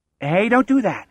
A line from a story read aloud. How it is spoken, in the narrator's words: Wendell says, his voice louder than speech, but softer than a shout